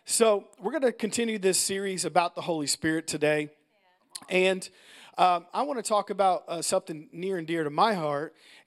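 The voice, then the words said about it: Hoarse, tight-throated voice. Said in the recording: “if I sound a little tight in my throat, I've just had some allergies this week ... I sound a little hoarse ... I haven't even started talking yet, and I'm already hoarse”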